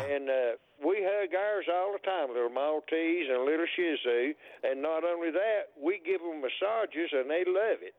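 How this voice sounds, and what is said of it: Tennessee Southern accent. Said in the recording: “you have as much of a Tennessee accent as I have a New York accent”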